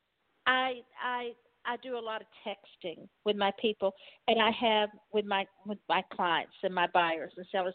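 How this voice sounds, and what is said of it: Southern Texas accent. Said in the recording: “I do have a southern accent. I do have a Texas accent. It is here. It never left”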